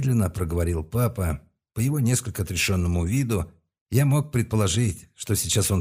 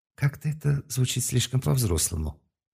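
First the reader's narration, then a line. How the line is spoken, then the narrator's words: Quiet mutter. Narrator (Russian): тихо пробормотала мама, думая, что ее никто не услышит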